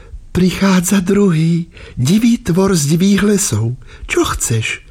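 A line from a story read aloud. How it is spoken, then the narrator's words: Woman, smiling. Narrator (Slovak): žena usmiala sa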